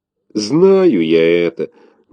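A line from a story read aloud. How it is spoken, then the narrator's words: Giant's booming sigh. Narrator (Russian): гулко вздохнул великан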